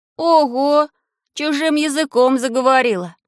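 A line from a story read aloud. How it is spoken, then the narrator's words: Sad. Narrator (Russian): сказал я печально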